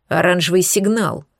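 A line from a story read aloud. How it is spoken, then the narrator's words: Growling. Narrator (Russian): прорычал он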